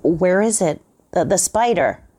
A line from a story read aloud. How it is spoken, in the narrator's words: he called out